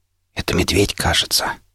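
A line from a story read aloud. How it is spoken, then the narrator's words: Whispered. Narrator (Russian): прошептал я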